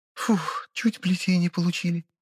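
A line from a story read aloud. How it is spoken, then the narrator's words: Relieved exhale. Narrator (Russian): облегченно выдохнула рабыня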